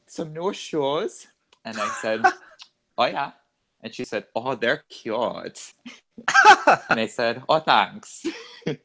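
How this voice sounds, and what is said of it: Poor put-on Minnesota accent. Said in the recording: “That's a terrible Minnesota accent.”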